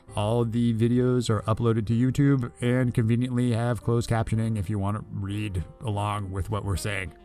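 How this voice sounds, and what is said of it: Radio announcer-style voice. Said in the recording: “I love your radio voice.”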